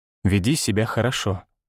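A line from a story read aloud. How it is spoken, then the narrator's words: Calm. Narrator (Russian): сказал спокойно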